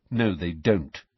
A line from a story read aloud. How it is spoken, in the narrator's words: said Harry, his jaw set